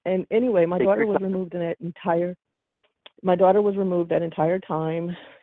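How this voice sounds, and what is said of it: Emotional voice, breaking up. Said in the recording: “my voice is breaking because I'm so emotional”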